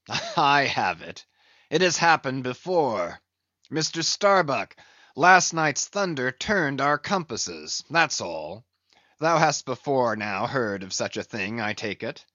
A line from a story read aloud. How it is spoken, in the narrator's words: the old man, with a rigid laugh, exclaimed